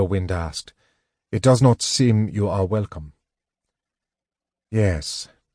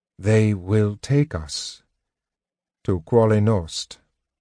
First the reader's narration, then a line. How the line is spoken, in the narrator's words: Tanis said slowly, the words apparently causing him deep pain